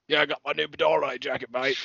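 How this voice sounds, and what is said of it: Put-on Yorkshire accent. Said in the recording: “I can try and do ... my best, like ... Yorkshire accent.”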